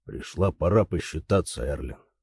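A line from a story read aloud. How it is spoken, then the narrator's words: Cold. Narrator (Russian): сказал он холодно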